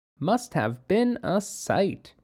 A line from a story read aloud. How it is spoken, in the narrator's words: Tia said softly and slowly